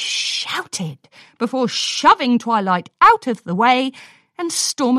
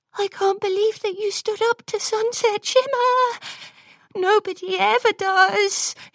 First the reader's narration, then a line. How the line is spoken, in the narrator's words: she cooed